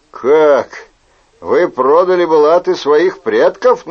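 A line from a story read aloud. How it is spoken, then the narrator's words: Mocking question. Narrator (Russian): насмешливо спросил Сент-Морен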